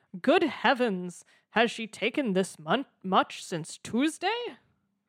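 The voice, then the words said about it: Dramatic exclaiming character voice. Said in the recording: “In that exact voice? ... Yes, precisely that.”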